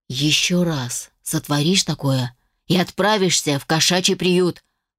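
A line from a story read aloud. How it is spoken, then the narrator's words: Hiss. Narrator (Russian): прошипел Волков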